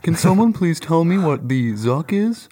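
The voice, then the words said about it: Imitates another person's voice. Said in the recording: “That's pretty good. ... That's a good impression. ... That's horrible.”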